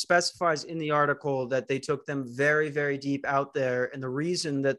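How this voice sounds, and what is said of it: Usual voice. Nothing is said of it.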